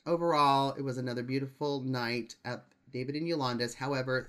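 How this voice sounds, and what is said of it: Usual voice. Nothing is said of it.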